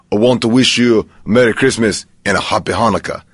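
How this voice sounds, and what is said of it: Imitates another person's voice, badly. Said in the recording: “record your best Arnold Schwarzenegger impression ... That's terrible impression.”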